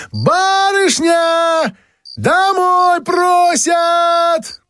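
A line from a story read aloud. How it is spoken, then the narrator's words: Shrill high scream. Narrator (Russian): закричала пронзительно и тонко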